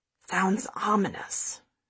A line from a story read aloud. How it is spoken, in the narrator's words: Fiona mutters